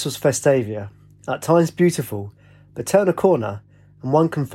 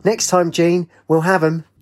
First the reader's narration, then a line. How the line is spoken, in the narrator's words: Two women by the bar screeched together